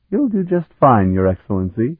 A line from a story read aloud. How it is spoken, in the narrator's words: she laughed